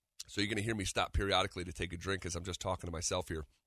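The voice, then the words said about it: Strained, nearly lost voice. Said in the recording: “I am on the verge of losing my voice”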